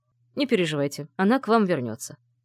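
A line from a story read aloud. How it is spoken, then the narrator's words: Dry. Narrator (Russian): сухо произнес Лангранж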